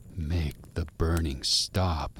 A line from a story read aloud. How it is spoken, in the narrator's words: he whispered